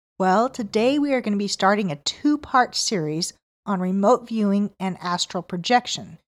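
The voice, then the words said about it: Voice slightly off from a cold. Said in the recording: “I had a cold this week, so my voice is a little off”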